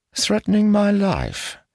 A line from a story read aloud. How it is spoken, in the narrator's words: Ilseth sighed